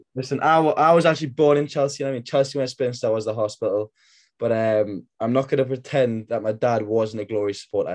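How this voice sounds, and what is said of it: Geordie accent. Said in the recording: “That's another Geordie. So we've got four Geordies on the line.”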